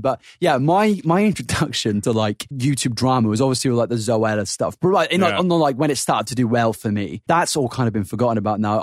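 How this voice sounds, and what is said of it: Suffolk English accent. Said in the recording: “our Suffolk accents are coming out of ... more ... I'm noticing it more.”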